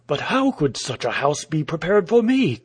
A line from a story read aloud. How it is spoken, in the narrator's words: cried the man, with a resentful tremor in his voice